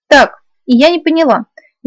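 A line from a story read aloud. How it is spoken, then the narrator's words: Slightly indignant. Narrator (Russian): несколько возмущенно начала я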